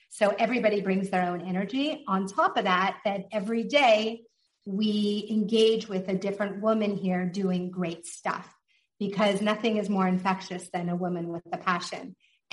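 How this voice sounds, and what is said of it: Non-native English accent. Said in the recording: “you can tell from my accent, I'm not exactly a native”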